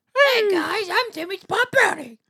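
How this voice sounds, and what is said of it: Childlike character voice. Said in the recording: “do a kid voice”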